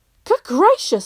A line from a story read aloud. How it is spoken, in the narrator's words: exclaimed his grandmother